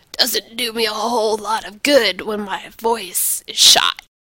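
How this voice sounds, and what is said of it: Papery, shredded raspy voice. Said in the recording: “His voice was as papery and shredded as usual.”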